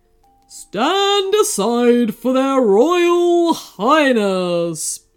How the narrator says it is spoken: boomed a loud voice

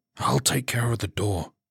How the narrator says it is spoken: he whispered

